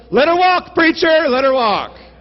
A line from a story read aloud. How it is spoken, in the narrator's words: someone in the back yelled